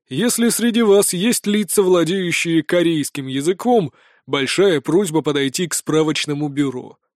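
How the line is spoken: Hoarse bass voice. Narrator (Russian): сказал он хриплым басом

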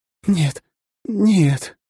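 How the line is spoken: Breathless, strained. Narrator (Russian): тяжело дыша пыталась выдавить из себя Дэй

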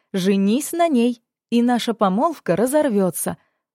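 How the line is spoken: Joyful summing up. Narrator (Russian): радостно подвела итог беседе

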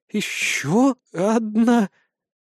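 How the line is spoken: Nervous stutter. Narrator (Russian): От волнения Мираэль начала заикаться

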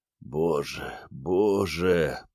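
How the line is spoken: Moaning. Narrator (Russian): простонал он

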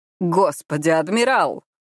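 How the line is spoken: Snorting. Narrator (Russian): Бергрен фыркнул

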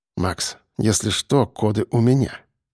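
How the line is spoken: Quiet. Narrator (Russian): сказал тихо

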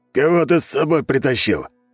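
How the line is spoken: Hoarse clanking voice. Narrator (Russian): послышался хриплый лязгающий голос

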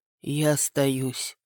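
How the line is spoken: Tired. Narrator (Russian): устало произнесла она

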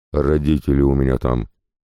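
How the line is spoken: Frantic woman's deep yell. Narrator (Russian): женщина, явно ничего не видя перед собой, жутким грудным голосом проорала

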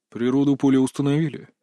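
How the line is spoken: Calm inquiry. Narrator (Russian): спокойно осведомился босс

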